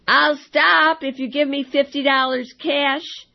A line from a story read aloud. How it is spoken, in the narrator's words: the man inside yelled